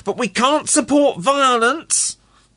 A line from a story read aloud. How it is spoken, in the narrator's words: the man shouted